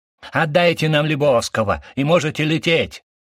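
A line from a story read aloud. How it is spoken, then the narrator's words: Yelling. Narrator (Russian): заорал один из мохнатых шапок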